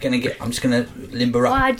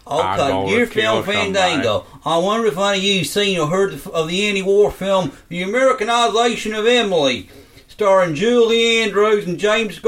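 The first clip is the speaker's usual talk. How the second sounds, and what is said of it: Forrest Gump-style Southern American accent. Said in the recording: “Seven accent. ... It's just Forrest Gump, isn't it?”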